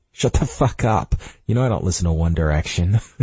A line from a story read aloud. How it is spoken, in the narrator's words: he says with a laugh